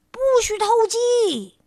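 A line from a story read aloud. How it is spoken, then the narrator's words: Loud shout. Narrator (Chinese): 你就高喊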